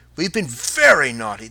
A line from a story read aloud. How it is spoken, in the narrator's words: they cried